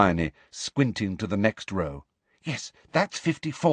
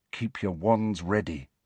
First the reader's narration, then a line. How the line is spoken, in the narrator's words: Harry said softly